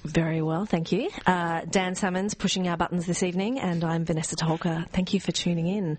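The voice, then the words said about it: Polished radio announcer voice. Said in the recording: “I like your new radio voice”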